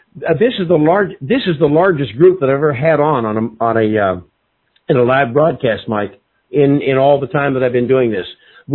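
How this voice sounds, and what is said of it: Congested, sick-sounding voice. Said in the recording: “I've got a cold also”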